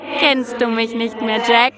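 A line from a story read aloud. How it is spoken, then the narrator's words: Laughing creature. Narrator (German): lachte das Wesen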